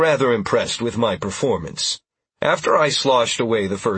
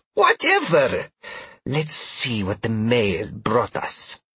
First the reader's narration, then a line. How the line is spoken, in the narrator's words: Trell scoffed